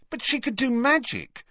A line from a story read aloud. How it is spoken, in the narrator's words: said Harry impatiently